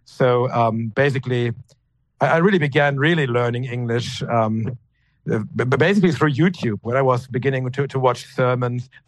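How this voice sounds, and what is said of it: German-accented English. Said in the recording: “my German dialect, my German accent”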